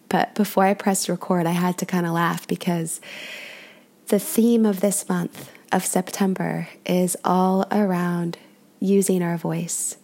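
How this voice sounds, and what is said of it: Congested voice from a cold. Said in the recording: “I have a cold, so I might sound a little bit off.”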